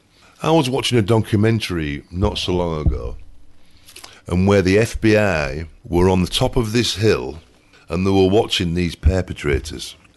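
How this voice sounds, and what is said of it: Speaks with a noticeable accent. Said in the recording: “if you can't understand my accent.”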